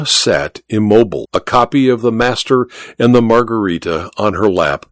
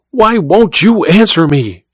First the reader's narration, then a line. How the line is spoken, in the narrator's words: she cried to Olga